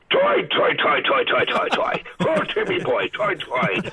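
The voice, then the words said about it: Put-on Irish accent, falling pitch. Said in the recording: “I can teach you to do an Irish accent in 5 seconds ... say the word toy, start high, and come down low”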